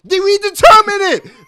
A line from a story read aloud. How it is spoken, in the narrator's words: I yelled